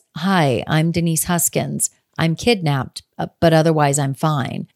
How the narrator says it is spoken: She says very calmly, she says

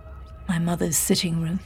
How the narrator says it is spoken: James murmured

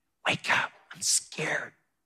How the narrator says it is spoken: he whispered

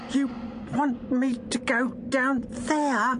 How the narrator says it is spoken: Unstoff finally managed to gasp, with chattering teeth and bone-dry throat

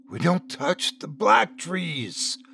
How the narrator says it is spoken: the old man hissed

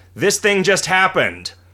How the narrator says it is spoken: A character will shout

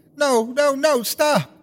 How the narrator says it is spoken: She screamed again

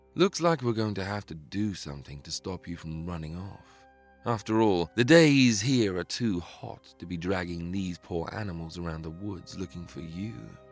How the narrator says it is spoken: he sighed

